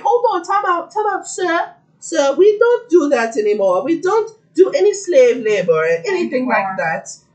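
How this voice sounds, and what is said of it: Put-on accent. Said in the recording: “Was that not a good accent? That was good.”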